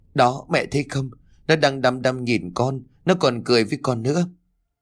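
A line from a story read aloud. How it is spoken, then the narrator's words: Frightened. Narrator (Vietnamese): Kim Ngân đưa đôi tay run rẩy chỉ về bên ngoài cửa sổ rồi nói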